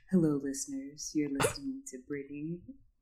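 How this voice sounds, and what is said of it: Sultry late-night radio DJ voice. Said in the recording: “if I had like a Quiet Storm show, that's the voice I would use ... that was my sexy voice”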